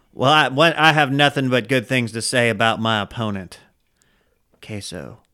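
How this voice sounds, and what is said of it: Ted Cruz impression. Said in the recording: “Did Ted Cruz just join us? ... that impression”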